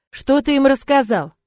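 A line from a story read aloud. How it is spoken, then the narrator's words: Metallic voice. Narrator (Russian): спросил металлическим голосом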